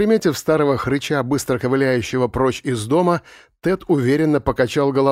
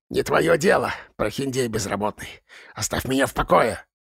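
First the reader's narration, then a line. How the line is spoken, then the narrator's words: Hiss without turning. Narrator (Russian): Не оборачиваясь, прошипел Роджерс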